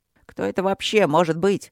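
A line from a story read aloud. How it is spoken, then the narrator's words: Irritated grumble. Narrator (Russian): раздраженно проворчала капитан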